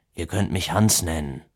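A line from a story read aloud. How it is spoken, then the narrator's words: Conciliatory murmur. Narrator (German): murmelte er als eine Art versöhnlichen Abschluss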